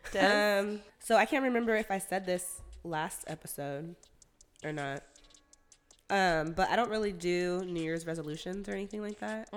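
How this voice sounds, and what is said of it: Rough, sick-sounding voice. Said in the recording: “my voice is pretty fucking shitty right now. I've been sick since New Year's Day. ... With the flu.”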